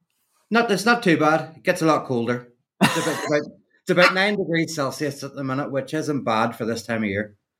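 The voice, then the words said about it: Northern Irish accent. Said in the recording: “I hear a Scottish accent ... No, Northern Irish. So, yeah, I mean, it's quite similar”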